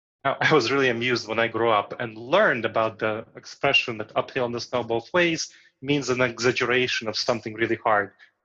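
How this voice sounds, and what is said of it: Foreign accent. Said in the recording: “I decided to retain my accent ... people with foreign accents”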